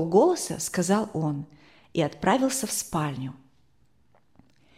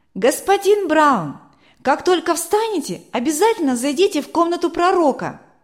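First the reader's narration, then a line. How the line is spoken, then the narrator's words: Shouting through closed door. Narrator (Russian): крикнул Матфей, не открывая дверь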